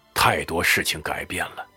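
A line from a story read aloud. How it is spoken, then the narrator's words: Sighing. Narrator (Chinese): 辛德曼叹息道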